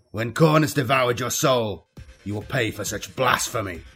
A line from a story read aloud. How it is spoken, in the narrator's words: Khan shouted